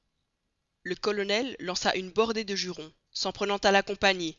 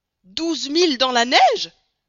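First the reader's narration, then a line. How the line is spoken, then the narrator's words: Exclaiming. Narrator (French): s'écria Stamp W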